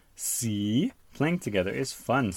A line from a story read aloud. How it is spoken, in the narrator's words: says Peppa